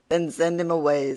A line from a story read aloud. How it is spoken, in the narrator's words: said Mercury